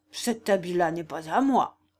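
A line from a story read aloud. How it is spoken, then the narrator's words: Grumbling. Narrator (French): dit-il d'un ton grondeur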